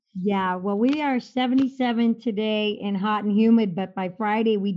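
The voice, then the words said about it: Minnesota American accent. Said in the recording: “you sound a little different down here... my accent from Minnesota”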